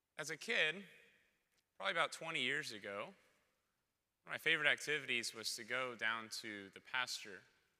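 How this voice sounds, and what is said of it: Hoarse, strained voice. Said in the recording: “you can kind of tell by my voice, I'm not sick, I just had to yell over loud music too long”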